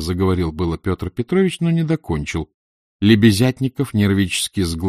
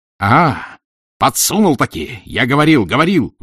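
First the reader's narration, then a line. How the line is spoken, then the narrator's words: Roaring. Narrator (Russian): взревел Разумихин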